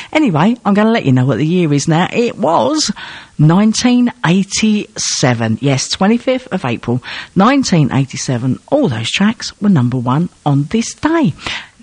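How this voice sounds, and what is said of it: Hoarse, failing voice. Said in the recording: “my voice is just going again. I've had this cold on and off for ages and ages.”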